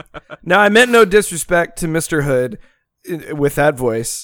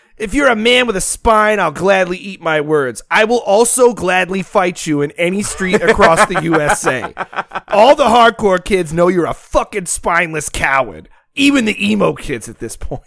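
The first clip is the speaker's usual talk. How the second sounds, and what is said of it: Tough-guy voice. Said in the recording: “I had to give it a tough voice”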